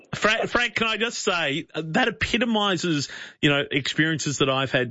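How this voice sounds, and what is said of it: Australian accent. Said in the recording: “the strong, g'day mate, how you going, Aussie accent”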